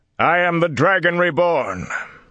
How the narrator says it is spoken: The words boomed across the square, amplified by air and fire

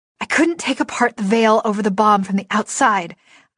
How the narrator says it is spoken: I panted

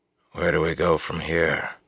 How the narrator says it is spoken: asked quietly

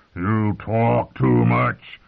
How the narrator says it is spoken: he grumbled

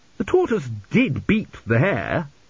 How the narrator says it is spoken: said Zeno, sulkily

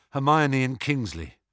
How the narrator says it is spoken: said Harry

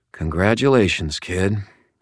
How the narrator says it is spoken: I told her quietly

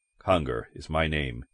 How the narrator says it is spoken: he murmured

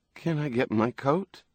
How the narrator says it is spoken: asked timidly

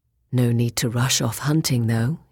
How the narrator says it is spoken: he said, smiling lazily

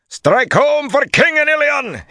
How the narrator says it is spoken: he shouted

